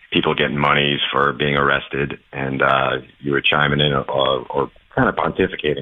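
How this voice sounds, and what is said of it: New York accent. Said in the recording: “I got that New York accent. I hear it. You're talking like a New Yorker.”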